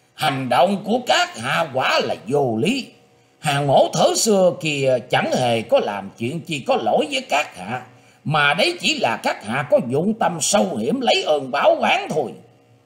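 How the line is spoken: Harsh, stern old man. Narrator (Vietnamese): Lão già che mặt cũng gằn giọng nói

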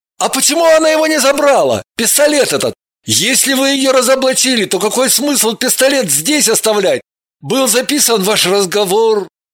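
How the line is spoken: Sudden frightened exclamation. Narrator (Russian): Он вдруг испуганно воскликнул

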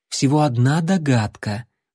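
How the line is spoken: Very soothing tone. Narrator (Russian): предельно успокаивающим тоном произнесла вампирша

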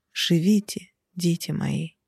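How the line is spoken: Whisper. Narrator (Russian): я шепнула

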